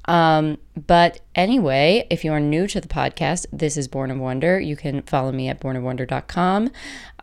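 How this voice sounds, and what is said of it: Voice affected by illness. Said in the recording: “there's a lot more sickness in the house ... I apologize for my voice.”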